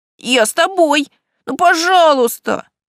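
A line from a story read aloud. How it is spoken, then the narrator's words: Traumatized wailing. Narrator (Russian): завопил Локи, получивший в нашем походе психологическую травму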